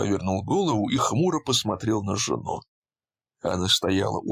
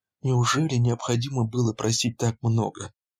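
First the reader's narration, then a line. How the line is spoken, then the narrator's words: Timid question. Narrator (Russian): робко спросила Кэрри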